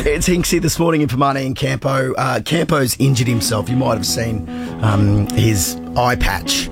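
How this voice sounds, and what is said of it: Strained, failing voice. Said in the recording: “I'm struggling this morning now. My voice has just decided to go, you know what, I'm done.”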